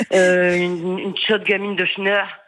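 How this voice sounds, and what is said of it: Put-on northern French accent. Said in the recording (French): “je le fais avec l'accent, parce que ouais. moi aussi, je suis du Nord.”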